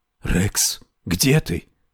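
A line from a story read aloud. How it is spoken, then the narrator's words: Fearful loud hissed whisper. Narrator (Russian): прошипел громким шепотом, повинуясь какому-то внезапному, безотчетному страху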